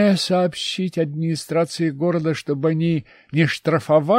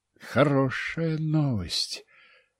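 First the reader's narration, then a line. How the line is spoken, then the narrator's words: Drawn-out drawl. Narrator (Russian): протянул Семен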